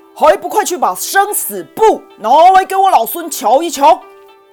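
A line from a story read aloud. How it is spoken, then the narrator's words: Loud angry roar. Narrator (Chinese): 孙悟空于是扯开嗓门，大声怒吼地说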